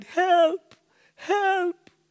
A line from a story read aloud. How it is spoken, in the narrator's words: I cried